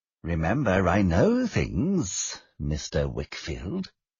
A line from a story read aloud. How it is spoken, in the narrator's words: Uriah said menacingly